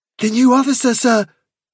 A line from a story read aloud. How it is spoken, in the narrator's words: cried